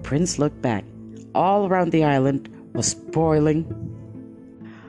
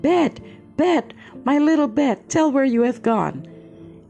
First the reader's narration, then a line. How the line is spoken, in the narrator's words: in her wrath and screaming